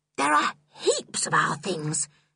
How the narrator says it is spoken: she said in a fierce whisper

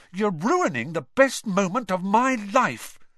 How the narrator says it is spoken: said Ron furiously

